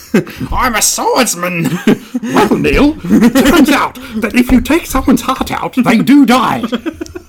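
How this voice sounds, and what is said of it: Character voice impression. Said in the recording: “That was a good Vivian. ... You do a mean Vivian.”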